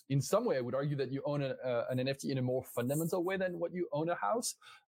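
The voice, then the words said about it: French accent in English. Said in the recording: “I'm French, you might have understood this already from my accent”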